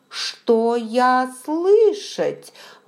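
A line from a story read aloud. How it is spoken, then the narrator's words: Excited exclamation, broken grammar. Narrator (Russian): воскликнул он, как всегда в минуты волнения теряя контроль за правильностью речи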